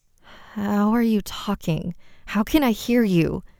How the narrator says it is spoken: Brooklyn asked shakily

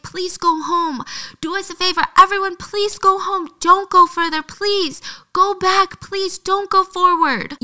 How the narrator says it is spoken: He's trying to scream over the music

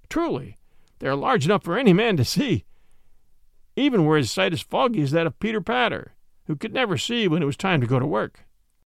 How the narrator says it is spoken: quoth Robin, laughing

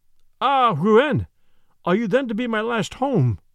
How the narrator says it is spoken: she exclaimed

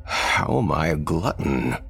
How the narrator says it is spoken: Thomas asked, chuckling

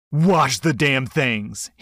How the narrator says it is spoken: he snapped back

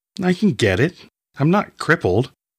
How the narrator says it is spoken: she retorted angrily

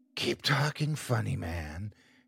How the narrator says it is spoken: she whispered

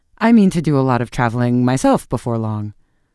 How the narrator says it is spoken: he added, his voice suddenly rising in pitch

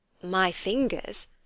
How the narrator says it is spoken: said Elizabeth

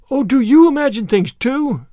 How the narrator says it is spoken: Anne of the Shining Eyes exclaimed joyfully

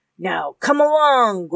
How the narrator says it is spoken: growled Bloody Dick

